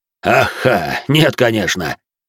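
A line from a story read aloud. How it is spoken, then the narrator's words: Deep voice, loud chuckle. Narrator (Russian): громко усмехнувшись, пробасил Де Журиньи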